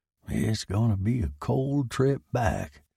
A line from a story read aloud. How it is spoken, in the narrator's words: muttered to himself